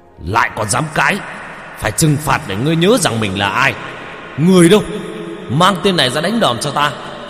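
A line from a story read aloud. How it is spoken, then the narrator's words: Official's angry hiss. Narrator (Vietnamese): Ông quan lại đập bàn mà rít lên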